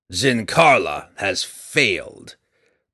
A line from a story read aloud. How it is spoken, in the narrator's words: Breeza growled as she glared at him